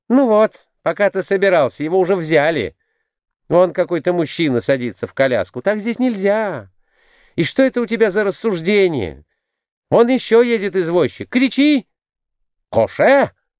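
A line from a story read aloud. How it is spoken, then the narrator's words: Shouting again. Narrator (Russian): крикнул опять Николай Иванович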